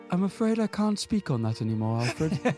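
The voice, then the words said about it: Put-on British accent. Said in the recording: “He's got a British accent now.”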